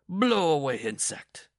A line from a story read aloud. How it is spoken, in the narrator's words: bellowed